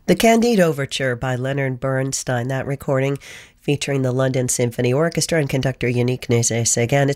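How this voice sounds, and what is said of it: Hoarse voice. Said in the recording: “Sorry if I'm still a little hoarse. Oh, the pollen.”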